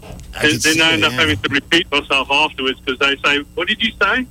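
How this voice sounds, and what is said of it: Noticeable accent. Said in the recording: “your accent draws women to you”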